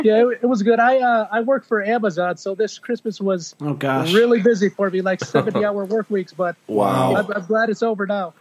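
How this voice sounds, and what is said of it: Midwestern American accent. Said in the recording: “you guys sound like there's some Midwest accent there”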